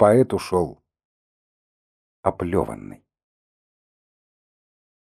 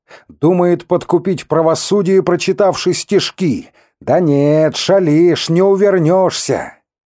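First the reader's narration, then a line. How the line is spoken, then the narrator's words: Very loud. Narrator (Russian): один из окружающих сказал очень громко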